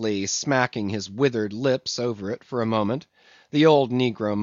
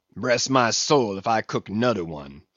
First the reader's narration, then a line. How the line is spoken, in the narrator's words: he growled, angrily